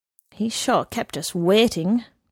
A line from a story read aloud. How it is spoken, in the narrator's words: grumbled the man under his breath